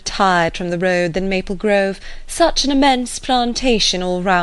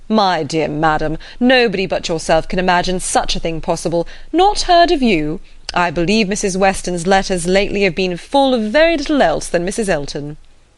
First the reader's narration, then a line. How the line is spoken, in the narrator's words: Weston, with a very good grace, immediately exclaimed